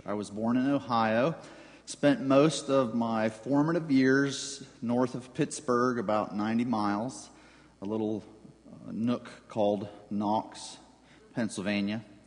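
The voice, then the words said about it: Southern-sounding western Pennsylvania accent. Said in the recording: “if you wonder about my accent, I'm not from the South. I'm just from a southern pocket in central western Pennsylvania.”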